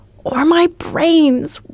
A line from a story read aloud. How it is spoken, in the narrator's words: wailed, wiping the tears from his eyes